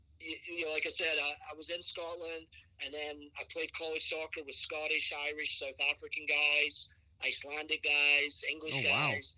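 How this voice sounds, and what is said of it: Hard-to-place mixed English-speaking accent. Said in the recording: “your accent? ... Complimented sometimes, made fun of sometimes ... my accent's been mistaken for Irish, Canadian, Scottish, Australian, New Zealand, you name it.”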